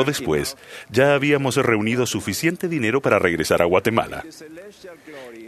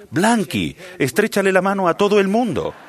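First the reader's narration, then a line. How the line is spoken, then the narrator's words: Exclaiming. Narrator (Spanish): exclamé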